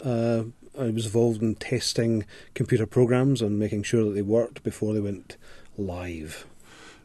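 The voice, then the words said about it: Scottish accent. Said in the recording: “talking with an accent ... the accent's not from these parts. I'm actually originally from Scotland.”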